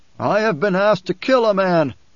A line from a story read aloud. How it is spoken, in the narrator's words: a voice shouted from off to the right, a deep voice with siege tones